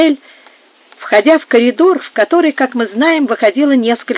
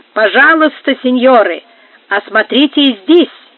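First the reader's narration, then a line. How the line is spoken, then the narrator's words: Loud shout upward. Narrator (Russian): громко крикнул им наверх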